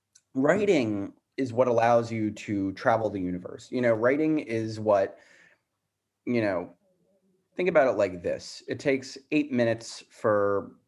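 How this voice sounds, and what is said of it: Hoarse voice. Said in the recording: “my voice is a little hoarse at the moment.”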